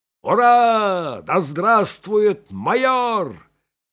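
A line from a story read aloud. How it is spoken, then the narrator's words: Sergeant yelling. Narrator (Russian): заорал сержант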